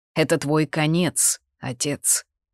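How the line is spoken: Low, threatening tone. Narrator (Russian): низким, угрожающим тоном произнес Ридиан

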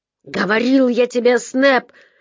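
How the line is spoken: Barked. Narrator (Russian): рявкнул на него Гекко

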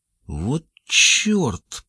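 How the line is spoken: Mutter. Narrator (Russian): пробормотал Селлито

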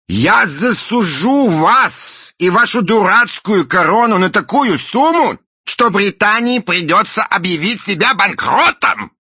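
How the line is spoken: Shout. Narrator (Russian): крикнул мистер Буль

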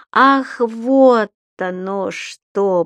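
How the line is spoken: Drawn-out drawl. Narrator (Russian): протянул господин Пепперминт

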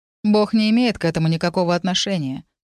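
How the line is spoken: Detached, flat tone. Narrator (Russian): сказал Фред отстраненным бесцветным тоном

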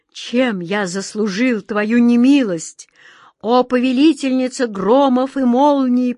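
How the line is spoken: Moaned. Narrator (Russian): простонал Джин

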